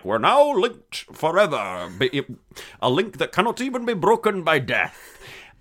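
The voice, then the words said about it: Sean Connery impression, mixed accent. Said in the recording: “your Egyptian accent is tight... An Egyptian, Zeistian, Spanish, Scotsman.”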